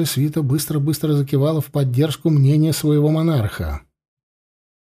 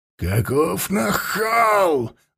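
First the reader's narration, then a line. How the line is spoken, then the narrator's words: Roaring. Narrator (Russian): Взревел король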